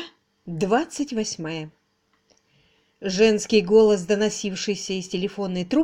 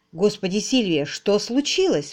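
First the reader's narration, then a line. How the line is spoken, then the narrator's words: Exclaiming. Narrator (Russian): воскликнул он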